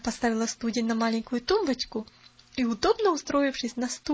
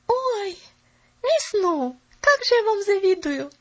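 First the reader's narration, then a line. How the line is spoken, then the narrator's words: Exclaiming. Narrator (Russian): воскликнула Поллианна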